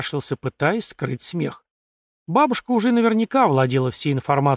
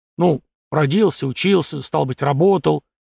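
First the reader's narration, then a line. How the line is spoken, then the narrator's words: Unexpectedly ringing listing voice. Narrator (Russian): начал перечислять тот неожиданно звонким голосом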